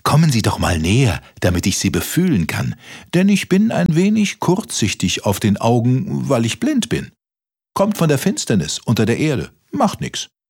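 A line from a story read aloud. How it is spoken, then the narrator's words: Mole calling out. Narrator (German): rief der Maulwurf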